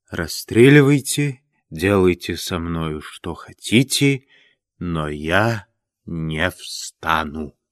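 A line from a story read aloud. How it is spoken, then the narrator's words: Languid, barely audible voice. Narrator (Russian): Степа ответил бы томным, чуть слышным голосом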